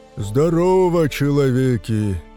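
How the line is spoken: Booming forest spirit. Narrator (Russian): прогудел леший

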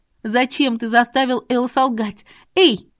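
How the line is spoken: Shouting. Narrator (Russian): крикнула

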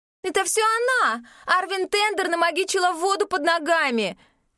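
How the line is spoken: Screaming. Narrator (Russian): вопила Амалия

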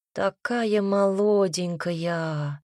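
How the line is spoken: Mumbling. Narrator (Russian): пробормотала тетка

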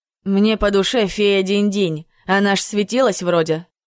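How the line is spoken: Muttered under breath. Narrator (Russian): буркнула себе под нос Марина

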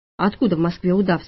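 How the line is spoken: Plain question. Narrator (Russian): спросила я

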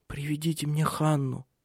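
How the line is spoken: Whispered. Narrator (Russian): прошептала она

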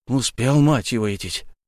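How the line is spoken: Heavy exhale. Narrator (Russian): Колон тяжело выдохнул

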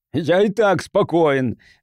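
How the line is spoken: Shrill squeal. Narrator (Russian): взвизгнул Пирсон

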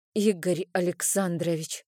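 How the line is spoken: Timid whisper. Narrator (Russian): робко прошептала я

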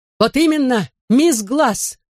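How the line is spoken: Shouted out. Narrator (Russian): выкрикнула она

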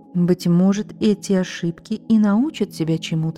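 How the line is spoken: Plain. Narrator (Russian): сказал тогда отец

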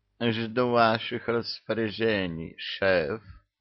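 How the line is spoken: Languid sing-song woman. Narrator (Russian): Томным голосом пропела она

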